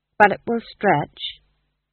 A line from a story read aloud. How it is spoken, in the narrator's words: said his wife firmly